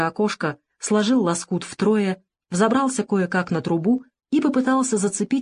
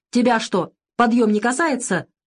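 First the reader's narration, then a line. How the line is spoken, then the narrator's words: Shouting major. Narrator (Russian): закричал майор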